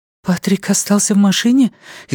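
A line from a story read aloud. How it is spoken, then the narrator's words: Frightened question. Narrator (Russian): испуганно спросила Люми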